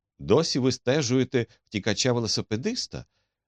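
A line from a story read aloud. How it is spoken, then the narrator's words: Cheerful question. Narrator (Ukrainian): весело запитав Холмс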